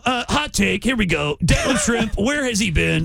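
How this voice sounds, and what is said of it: Impression of Jim Rome. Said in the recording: “I did an impression of him ... Jim Rome”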